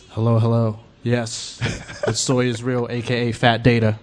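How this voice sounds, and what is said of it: Deep radio voice. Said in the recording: “your voice has gotten so much deeper, too ... this is my radio voice”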